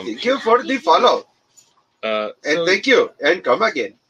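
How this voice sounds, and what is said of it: Weak put-on Indian accent. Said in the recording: “Lamest Indian accent. You can do better”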